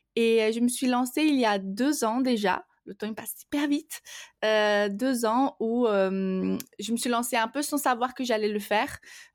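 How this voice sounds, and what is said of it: Slight Brazilian accent in French. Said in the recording (French): “je suis donc brésilienne ... mon petit accent”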